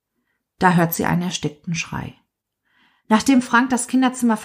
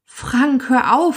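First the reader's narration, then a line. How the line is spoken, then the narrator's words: Pleading. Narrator (German): fleht sie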